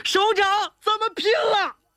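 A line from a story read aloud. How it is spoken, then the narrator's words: Sobbing shout. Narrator (Chinese): 警卫员小吴哭喊着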